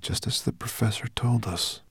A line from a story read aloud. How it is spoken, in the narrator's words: said Ben quietly